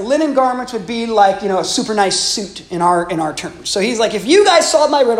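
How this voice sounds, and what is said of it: Usual voice. Nothing is said of it.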